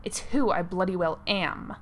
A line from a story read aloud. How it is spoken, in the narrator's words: snapped